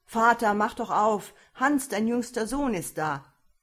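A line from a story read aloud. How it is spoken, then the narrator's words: Calling out. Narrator (German): rief er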